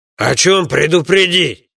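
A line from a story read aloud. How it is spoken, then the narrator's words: Booming familiar voice from behind. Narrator (Russian): прогудел сзади знакомый голос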